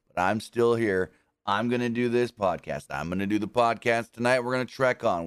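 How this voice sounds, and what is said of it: Strained voice worn from singing. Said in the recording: “I went hard this weekend with singing ... You can hear it in my voice”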